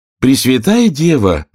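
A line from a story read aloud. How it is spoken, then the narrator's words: Surprised exclamation. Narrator (Russian): воскликнула девушка, глядя на меня с великим удивлением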